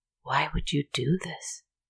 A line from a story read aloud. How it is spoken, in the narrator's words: whispered